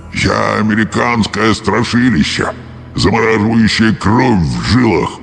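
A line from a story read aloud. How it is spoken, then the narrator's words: Hollow ghostly underground voice. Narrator (Russian): проговорил призрак глухим голосом, как будто идущим откуда-то из-под земли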